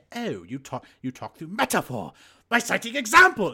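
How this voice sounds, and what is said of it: Bad Picard impression. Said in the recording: “your Picard impression ... It's terrible.”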